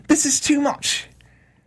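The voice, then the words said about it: Brief put-on English accent. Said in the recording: “Is that supposed to be like an English accent? ... that's my British. You only get a little.”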